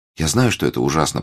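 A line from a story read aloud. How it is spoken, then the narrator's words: Dejected. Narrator (Russian): продолжала Рут упавшим голосом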